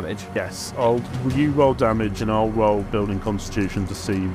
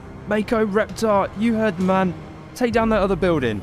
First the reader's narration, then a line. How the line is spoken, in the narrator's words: Felix shouts out